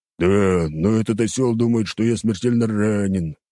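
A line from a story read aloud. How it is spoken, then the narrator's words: Grumbling reply. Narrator (Russian): проворчал Багги в ответ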